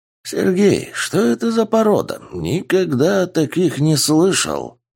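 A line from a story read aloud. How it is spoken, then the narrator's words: Asked thoughtfully. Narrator (Russian): Задумчиво спросил профессор Кюри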